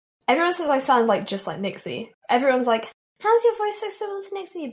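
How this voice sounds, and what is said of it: British accent with Australian tinge. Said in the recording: “your accent kind of sounds like Australian, but it's like still a British accent though.”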